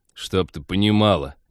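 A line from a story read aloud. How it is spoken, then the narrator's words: Indignant snort. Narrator (Russian): Негодующе хмыкнул пилот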